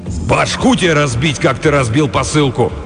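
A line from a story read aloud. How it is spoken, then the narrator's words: Furious big man barking. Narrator (Russian): рявкнул огромный разъяренный детина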